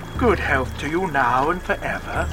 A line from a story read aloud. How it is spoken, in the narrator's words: he said warmly